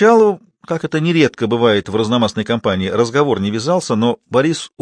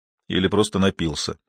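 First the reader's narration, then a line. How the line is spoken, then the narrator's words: Quiet addition. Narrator (Russian): негромко добавил Борис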